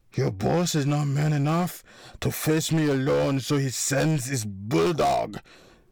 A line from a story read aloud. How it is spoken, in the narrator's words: Ingolf bellowed